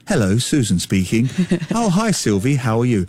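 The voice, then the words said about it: Imitates mother's polite telephone voice. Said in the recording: “my mother's telephone voice ... her telephone voice”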